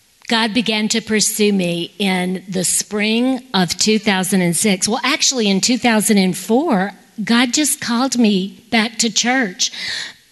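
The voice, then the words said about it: Louisiana Southern accent. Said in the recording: “I was sitting in that church in Baton Rouge, Louisiana. That's where you're hearing the accent.”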